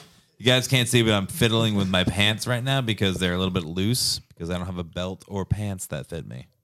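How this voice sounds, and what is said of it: Usual voice. Nothing is said of it.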